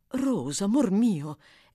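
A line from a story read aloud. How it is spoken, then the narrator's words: Exclaiming. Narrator (Italian): esclamò la signora Maylie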